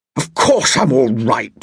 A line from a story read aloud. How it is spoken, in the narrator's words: growled